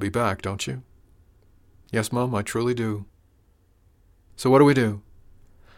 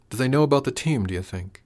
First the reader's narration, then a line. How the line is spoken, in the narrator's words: Frank sighed